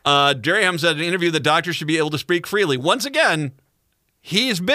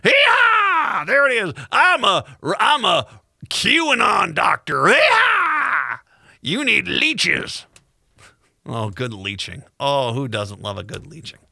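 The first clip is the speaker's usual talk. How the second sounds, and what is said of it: Put-on hillbilly voice. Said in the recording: “Can I do the hillbilly voice”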